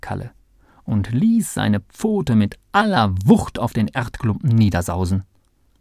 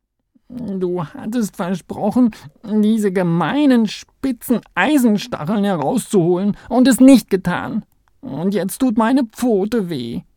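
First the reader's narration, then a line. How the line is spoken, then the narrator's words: Sobbing. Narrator (German): schluchzte er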